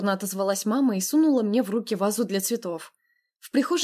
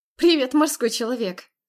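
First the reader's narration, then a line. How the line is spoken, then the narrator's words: Laughing. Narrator (Russian): рассмеялась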